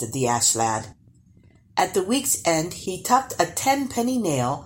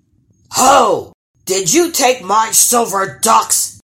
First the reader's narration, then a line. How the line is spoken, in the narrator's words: bellowed the troll when he caught sight of the Ash Lad